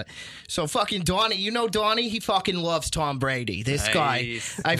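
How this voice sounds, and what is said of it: Put-on Boston accent. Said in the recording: “Boston accent”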